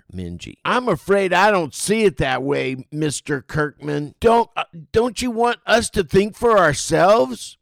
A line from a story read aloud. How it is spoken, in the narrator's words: Minji stands and yells with anger